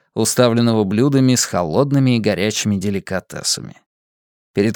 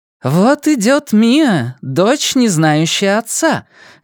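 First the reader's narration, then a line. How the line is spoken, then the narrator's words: Joyful shout into hall. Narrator (Russian): радостно крикнула огромному молчаливому залу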